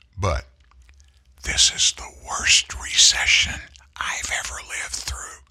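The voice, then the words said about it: Whispering. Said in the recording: “I'll whisper this”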